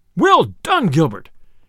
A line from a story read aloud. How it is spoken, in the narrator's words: cried the sheriff, right joyously